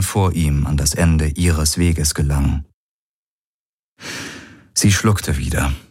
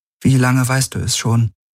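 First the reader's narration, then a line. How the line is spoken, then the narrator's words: Forced calm question. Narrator (German): Sie wusste nicht, wie sie ihre Stimme weitgehend ruhig halten konnte, als sie fragte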